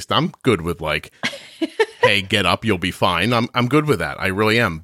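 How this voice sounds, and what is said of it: Strong American Northeast accent. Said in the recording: “you can hear my terrible accent. I'm from the Northeast.”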